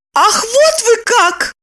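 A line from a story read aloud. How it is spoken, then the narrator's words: Shouting. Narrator (Russian): закричала она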